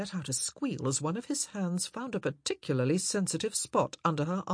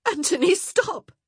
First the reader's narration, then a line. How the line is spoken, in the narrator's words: she gasped